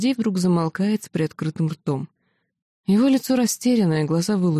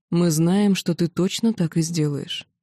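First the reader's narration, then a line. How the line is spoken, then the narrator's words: Calm. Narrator (Russian): спокойно отвечает Гордей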